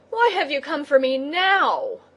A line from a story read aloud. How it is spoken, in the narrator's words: he cried angrily to the crab